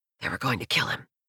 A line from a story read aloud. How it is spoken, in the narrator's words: I whisper